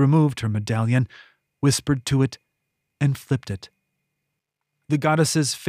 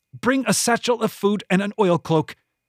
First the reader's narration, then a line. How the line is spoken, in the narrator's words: The coin barked out